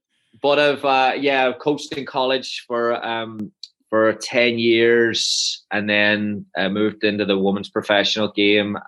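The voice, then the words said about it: Faded Northern Irish accent. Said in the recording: “I was born in Omagh, Northern Ireland ... the accent is hanging on for dear life at this stage”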